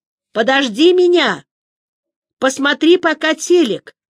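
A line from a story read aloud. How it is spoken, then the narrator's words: Shout. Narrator (Russian): крикнул Юити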